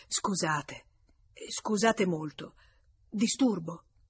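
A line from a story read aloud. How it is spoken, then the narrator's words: Murmuring. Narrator (Italian): mormorò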